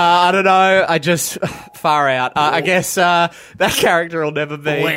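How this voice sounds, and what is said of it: Usual voice. Nothing is said of it.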